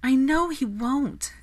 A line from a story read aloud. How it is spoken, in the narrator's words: Daphne sighed